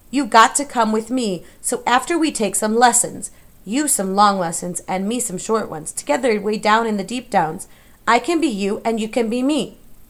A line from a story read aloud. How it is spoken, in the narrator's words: Mig opened her eyes and shouted